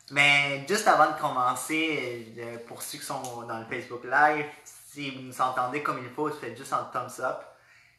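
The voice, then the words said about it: Slight non-local French accent. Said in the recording (French): “on reconnaît qu'il y a un petit accent”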